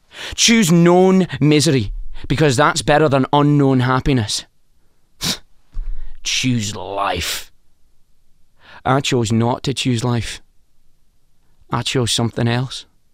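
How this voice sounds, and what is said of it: Convincing put-on Scottish accent. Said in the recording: “your Scottish accent is very impressive.”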